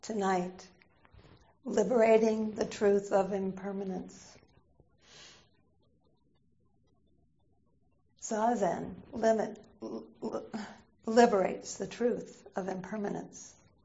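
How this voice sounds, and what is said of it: Slightly hoarse voice. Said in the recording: “I can feel my voice, it's a little hoarse”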